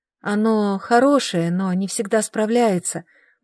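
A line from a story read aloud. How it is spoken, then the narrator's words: Muttered. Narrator (Russian): бормотала я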